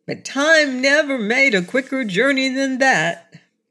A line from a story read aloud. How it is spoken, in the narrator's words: laughed Button Bright